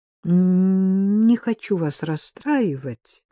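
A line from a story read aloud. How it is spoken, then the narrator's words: Soft. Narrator (Russian): мягко проговорил он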